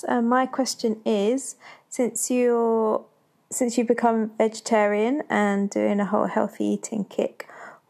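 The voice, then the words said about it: Foreign-sounding accent. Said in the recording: “Accent. ... Have such an international presence on this.”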